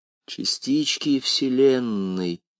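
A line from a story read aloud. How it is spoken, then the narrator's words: Slow musing. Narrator (Russian): медленно размышлял он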